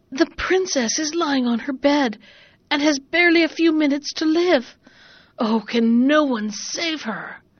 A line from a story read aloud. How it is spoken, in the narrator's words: with a shaking voice he gasped